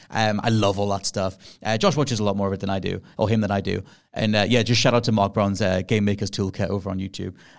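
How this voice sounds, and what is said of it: Refined Northeast English accent. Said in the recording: “As for the accents, I'm Northeastern born and bred ... initially, I was way more broad ... over time, got way more refined”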